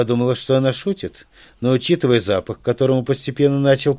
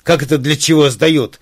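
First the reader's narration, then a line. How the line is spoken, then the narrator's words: Wild screaming. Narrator (Russian): закричала она дурным голосом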